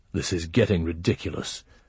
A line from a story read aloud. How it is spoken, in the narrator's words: Tokar grumbled